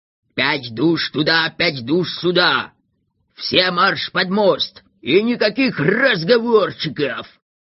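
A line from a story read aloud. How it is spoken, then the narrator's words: Hoarse wheeze. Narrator (Russian): прохрипел Рвигль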